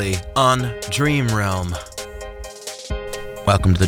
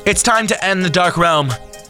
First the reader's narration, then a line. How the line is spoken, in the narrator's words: Jordan cried out to the room